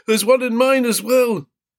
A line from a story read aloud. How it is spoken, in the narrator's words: a man with a flat nose shouted